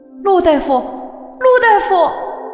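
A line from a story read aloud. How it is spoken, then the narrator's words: Patient's desperate cry. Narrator (Chinese): 病人在绝望中的呼喊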